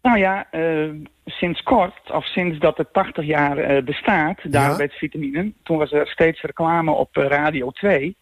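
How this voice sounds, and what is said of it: Light Frisian Dutch accent. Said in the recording (Dutch): “In Friesland. ... Ik hoor het, ja. Ik hoor het licht accent.”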